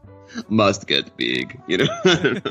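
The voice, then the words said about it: Imitates a bodybuilder's accent. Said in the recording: “it's got that Schwarzenegger. I'm just, you know, because every muscle builder has a Schwarzenegger accent, right?”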